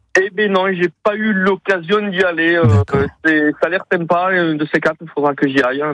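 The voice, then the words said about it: Toulouse French accent. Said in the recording (French): “avec le bel accent toulousain”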